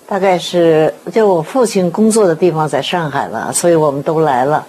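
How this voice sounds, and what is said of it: Beijing accent. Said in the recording (Chinese): “听您的口音好像是北京人是吗”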